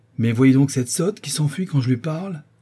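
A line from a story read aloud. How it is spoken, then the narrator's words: Exclaiming. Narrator (French): s'écria M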